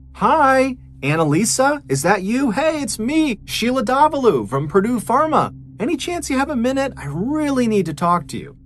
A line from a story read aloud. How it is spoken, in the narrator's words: Sheila called out in her friendliest voice